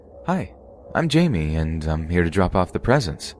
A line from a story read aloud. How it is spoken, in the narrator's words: said in my still bubbly voice